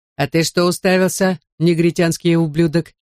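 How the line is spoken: Proud bark. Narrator (Russian): рявкнул в лицо Джонни гордо

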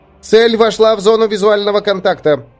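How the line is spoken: Loud report. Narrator (Russian): громко доложил один из операторов

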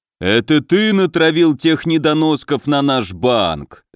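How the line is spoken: Growling orc. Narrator (Russian): зарычал орк

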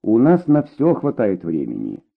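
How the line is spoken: Calm reply. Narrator (Russian): спокойно ответила Дина

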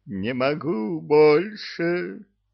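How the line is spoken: Exhausted horse howling. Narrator (Russian): Взвыл изнемогший скакун

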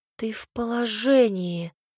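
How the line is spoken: Astonished breathless exclamation. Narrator (Russian): изумленно выдохнула я

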